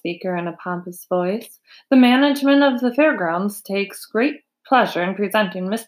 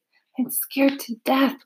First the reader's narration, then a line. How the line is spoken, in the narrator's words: whispered Mrs